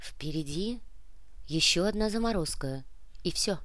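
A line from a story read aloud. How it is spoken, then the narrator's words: Whisper. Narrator (Russian): прошептала Яна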